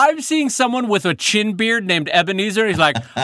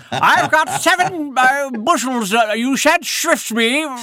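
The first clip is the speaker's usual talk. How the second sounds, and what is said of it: Put-on old-fashioned character accent. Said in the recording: “was that the wrong accent for what I was trying to describe? ... For Amish, you got to go a little bit German.”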